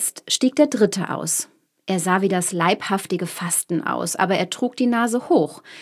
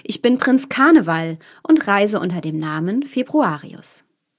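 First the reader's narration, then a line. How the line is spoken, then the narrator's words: Man calling out. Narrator (German): rief der Mann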